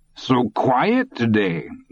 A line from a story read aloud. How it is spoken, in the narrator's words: Deuceander exclaimed